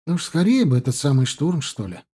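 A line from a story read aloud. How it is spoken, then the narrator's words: Sighing. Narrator (Russian): вздохнул друг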